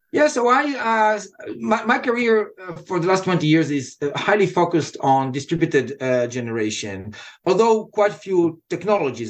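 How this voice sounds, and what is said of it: Softened Israeli accent. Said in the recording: “what you hear is Israeli accent that was softened after 25 years here”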